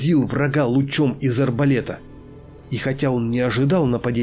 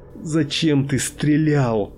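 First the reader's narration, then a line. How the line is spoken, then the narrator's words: Anguished moan. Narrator (Russian): застонал от внутренней душевной боли оружейник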